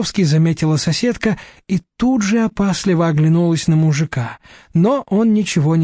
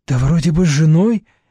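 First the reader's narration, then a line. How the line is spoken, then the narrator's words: Uncertain. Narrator (Russian): неуверенно сказала соседка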